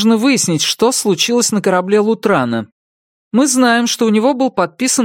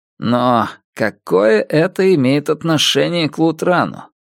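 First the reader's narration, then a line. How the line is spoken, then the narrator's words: Muttering. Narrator (Russian): пробормотал Мотив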